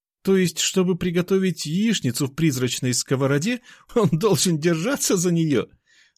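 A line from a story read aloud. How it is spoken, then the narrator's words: Laughing. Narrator (Russian): рассмеялся Миша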